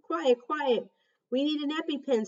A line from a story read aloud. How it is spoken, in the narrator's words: shouted